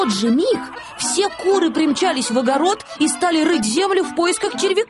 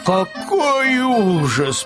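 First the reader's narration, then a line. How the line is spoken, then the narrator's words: Moaning. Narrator (Russian): простонал Пэтсон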